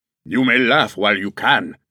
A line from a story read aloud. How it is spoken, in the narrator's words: the Boche growled